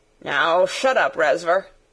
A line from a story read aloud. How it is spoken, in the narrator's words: said Sarah roughly